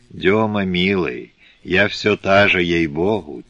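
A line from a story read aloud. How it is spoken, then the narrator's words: Soft singsong whisper. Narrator (Russian): тихо певуче прошептала Агния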